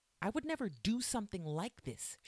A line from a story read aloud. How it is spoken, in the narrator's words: she shouted